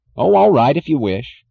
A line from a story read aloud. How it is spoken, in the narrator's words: he snapped